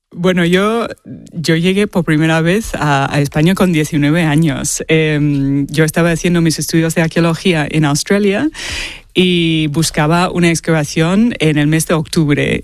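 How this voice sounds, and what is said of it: Australian accent speaking Spanish. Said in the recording (Spanish): “tienes un acento australiano, pero te lo hemos notado a la primera”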